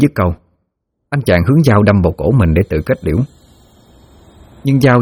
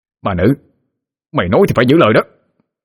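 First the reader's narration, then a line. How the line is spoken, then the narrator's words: Shouted. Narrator (Vietnamese): Hắn hét lên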